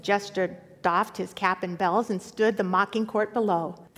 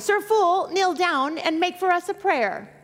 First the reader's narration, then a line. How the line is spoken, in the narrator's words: to his jester cried